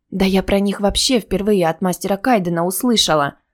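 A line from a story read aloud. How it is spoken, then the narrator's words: Frightened mumble. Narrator (Russian): испуганно пробормотала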